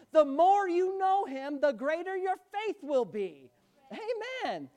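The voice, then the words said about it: Screaming, fired-up preaching. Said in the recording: “why are you screaming at us? Because you're making me. I'm fired up.”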